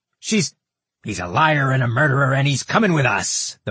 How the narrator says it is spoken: the Martinhale man yelled

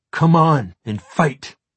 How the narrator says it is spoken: he said brokenly

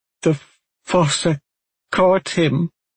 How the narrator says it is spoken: Aulan stammered

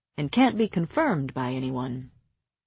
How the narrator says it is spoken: Rhys cut in smoothly

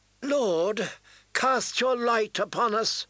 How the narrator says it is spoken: Melisandre called out

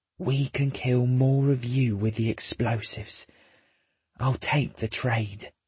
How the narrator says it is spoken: whispers

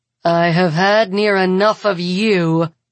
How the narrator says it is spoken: Amelia growls

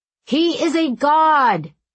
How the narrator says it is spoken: he shouted to the watchers on land

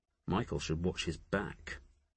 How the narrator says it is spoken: Jophiel murmured

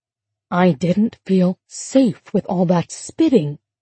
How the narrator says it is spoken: she whispered

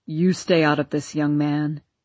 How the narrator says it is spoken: growled Papa

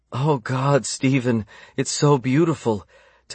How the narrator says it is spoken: Tessa gasped

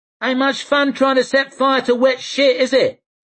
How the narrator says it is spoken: shouted Leaf

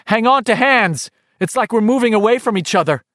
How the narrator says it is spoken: she called out nervously

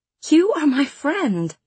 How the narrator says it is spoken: I said, and my voice broke on the word

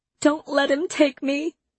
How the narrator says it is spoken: I sobbed again

